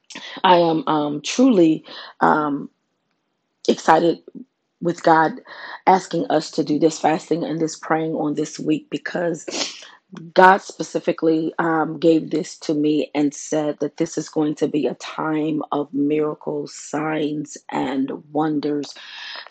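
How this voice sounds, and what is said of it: Slightly raspy voice. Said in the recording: “I'm a little raspy in my voice this morning ... My allergies are kicking in”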